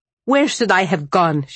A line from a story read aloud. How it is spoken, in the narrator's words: She snapped